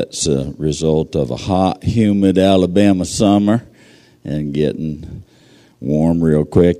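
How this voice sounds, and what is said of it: Strained, worn voice. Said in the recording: “pray for my voice just a little bit”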